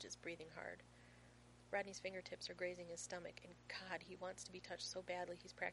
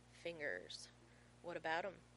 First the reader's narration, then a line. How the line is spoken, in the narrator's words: John groans